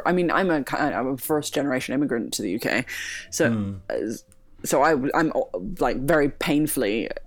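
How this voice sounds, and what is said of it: Unusual international accent. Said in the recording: “I have quite a weird kind of international accent ... I get asked very very often where I'm from”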